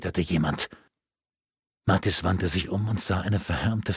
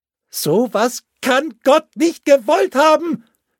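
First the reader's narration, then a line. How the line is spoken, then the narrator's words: Furious scream. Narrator (German): schrie sie ihre Wut hinaus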